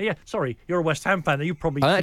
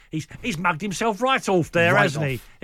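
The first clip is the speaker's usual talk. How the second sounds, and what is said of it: Exaggerated mock Cockney accent. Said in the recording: “In the language of many, many ITV series which feature mock Cockneys ... gone Dick Van Dyke on it”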